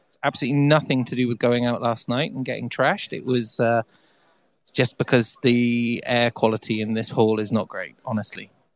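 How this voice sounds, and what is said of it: Hoarse voice. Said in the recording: “You'll probably all hear how hoarse my voice is.”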